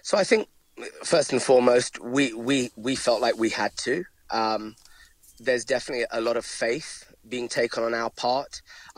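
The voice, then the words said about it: London English accent. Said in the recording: “as you might be able to tell from my accent, I'm from London”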